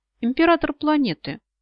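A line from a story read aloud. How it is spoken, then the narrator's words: Glum. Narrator (Russian): уныло сообщает Азамат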